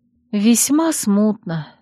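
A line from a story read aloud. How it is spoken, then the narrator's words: Sighing. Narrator (Russian): вздохнула я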